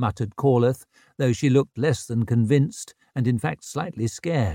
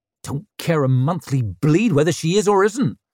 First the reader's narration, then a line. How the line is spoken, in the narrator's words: snapped Ricker